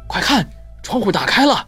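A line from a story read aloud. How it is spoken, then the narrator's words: Soft call. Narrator (Chinese): 福尔摩斯轻喊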